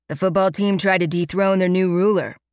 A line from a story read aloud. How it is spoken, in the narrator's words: he says, his tone way too chipper given that his lower lip is still oozing blood